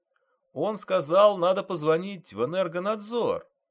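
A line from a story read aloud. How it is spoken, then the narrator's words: Loud repetition. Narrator (Russian): громко повторил мужчина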